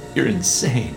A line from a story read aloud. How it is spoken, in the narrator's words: I muttered